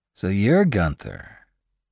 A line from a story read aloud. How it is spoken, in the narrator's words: he said calmly